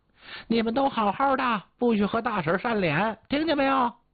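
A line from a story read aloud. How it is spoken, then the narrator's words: Loud. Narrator (Chinese): 然后大声的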